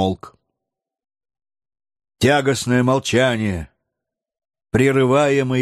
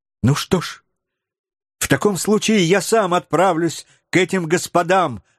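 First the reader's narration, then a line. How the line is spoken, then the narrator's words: Exclaiming young man. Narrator (Russian): воскликнул юный Роберт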